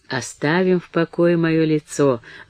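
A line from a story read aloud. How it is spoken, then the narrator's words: Gentle, affectionate. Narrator (Russian): ласково промолвила Мэри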